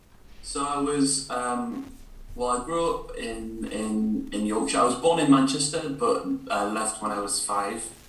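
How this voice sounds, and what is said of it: Yorkshire English accent. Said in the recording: “the Yorkshire lad ... a sort of Yorkie accent”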